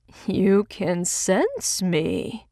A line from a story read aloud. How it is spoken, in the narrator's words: he said suddenly, his voice low and weirdly sing-song